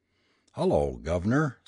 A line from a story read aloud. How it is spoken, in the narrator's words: said he